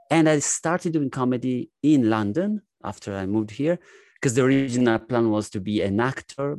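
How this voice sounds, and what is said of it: Strong Italian accent. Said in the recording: “I am an Italian ... my strong Italian accent”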